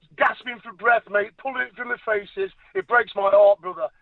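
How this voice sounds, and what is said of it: Angry, impassioned voice. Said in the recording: “That's what makes me angry. That's what you hear in my voice, mate. That's what gives me so much anger”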